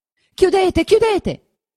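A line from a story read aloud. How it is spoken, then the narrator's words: Shouting. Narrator (Italian): gridava Lucia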